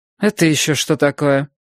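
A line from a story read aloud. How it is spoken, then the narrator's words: Cold question. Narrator (Russian): холодно спросила она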